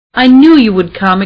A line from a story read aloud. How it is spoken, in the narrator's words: exclaimed Mrs